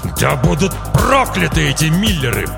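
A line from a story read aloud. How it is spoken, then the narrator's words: Growling father. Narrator (Russian): прорычал отец девочки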